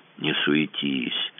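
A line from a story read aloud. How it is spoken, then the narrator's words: Hoarse wheeze. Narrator (Russian): прохрипел Кацуба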